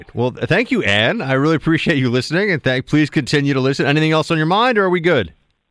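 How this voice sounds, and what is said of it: New York accent. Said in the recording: “What's your accent? Where does it emanate from? ... I was born and raised in Manhattan, in New York City. ... I certainly don't sound Southern.”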